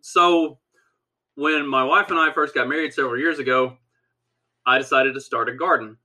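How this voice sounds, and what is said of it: Southern Kentucky country accent. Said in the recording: “I was raised on a farm in Southwest Kentucky, and I am very much just an old redneck country boy. If you can't tell by my accent, I am very much a complete redneck.”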